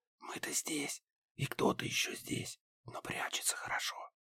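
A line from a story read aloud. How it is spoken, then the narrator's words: Whisper. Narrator (Russian): прошептал профессор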